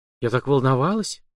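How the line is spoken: Secret whisper. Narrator (Russian): тайком шепнула командиру Калашникова

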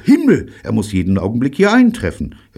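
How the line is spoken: Excited call. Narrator (German): rief aufgeregt

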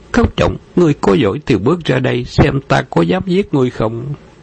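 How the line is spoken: Enraged loud roar. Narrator (Vietnamese): Đơn Nguyễn Tinh, đại nộ quát lớn

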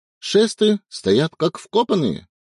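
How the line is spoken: Cheerful. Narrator (Russian): бодро сообщила Ная

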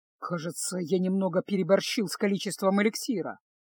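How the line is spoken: Grumbled mutter. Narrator (Russian): буркнул Кайл

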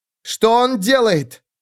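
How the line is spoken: Shouted. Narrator (Russian): крикнула Келиз

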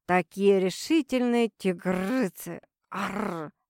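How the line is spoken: Playful growl. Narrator (Russian): игриво прорычал он

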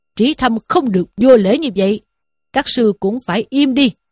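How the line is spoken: Old monk shouting. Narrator (Vietnamese): sư cụ ở pháp đường quát lên rằng

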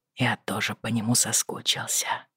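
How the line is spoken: Whisper. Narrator (Russian): прошептал

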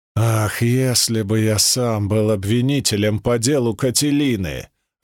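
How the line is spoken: Growling. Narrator (Russian): рычал Цицерон

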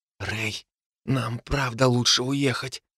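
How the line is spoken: Whispered. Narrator (Russian): прошептала рядом Терри

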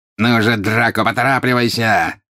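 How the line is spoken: Angry exclamation. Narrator (Russian): сердито воскликнул жестоколицый

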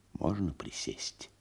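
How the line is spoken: Whispered inquiry. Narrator (Russian): Пришедший шепотом осведомился

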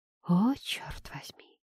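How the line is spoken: Breathed exclamation. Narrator (Russian): Выдохнула

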